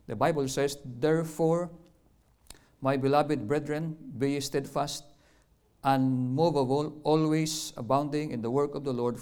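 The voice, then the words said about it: Speaks English with a foreign accent. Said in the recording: “just bear with my accent”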